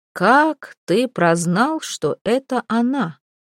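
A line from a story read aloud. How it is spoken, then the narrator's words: Calm question. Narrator (Russian): спросил Маланич уже спокойно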